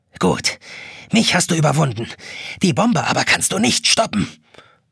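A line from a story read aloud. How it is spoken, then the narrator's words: Gentle yet angry whisper. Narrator (German): flüstert die Taschenuhr sanft und zornig zugleich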